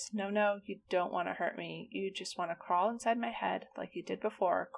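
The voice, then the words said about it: Much quieter voice. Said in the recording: “the woman spoke in a much quieter voice.”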